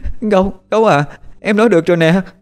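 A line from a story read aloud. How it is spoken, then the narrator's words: Tearful cry. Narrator (Vietnamese): nước mắt của em chảy ra lưng tròng, rồi cứ vậy mà kêu lên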